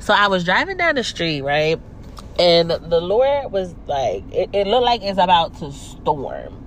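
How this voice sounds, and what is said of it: Nasal, congested voice. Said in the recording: “this is a little under the weather, so if I sound a little nasally, that's why, because I'm a little under the weather”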